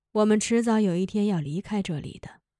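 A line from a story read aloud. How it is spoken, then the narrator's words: Sighing. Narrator (Chinese): 瓦罗加又叹息了一声，说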